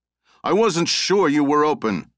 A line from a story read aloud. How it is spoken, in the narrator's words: Morty called out